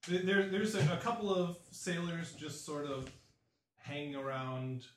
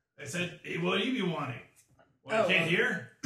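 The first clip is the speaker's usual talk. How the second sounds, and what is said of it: Put-on accent for a sailor character. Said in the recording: “your accent's lovely”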